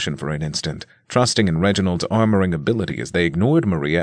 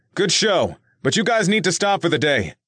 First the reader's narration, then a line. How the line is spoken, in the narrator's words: Nick yelled after the results of the match were clear